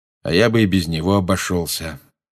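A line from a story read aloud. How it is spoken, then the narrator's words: Gloomy, from behind book. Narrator (Russian): мрачно сказал Люпин из-за своей книги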